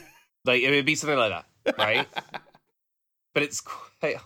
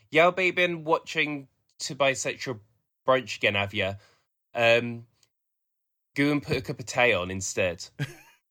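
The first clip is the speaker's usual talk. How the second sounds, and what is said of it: Put-on strong Black Country accent. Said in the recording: “if you're from the black country accent is thick, is a thicker accent ... it's a stronger accent than the Birmingham accent ... it's really, really strong ... It's not Birmingham, it's black country.”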